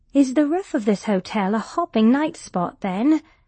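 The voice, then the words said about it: British accent. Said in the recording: “Her accent was British.”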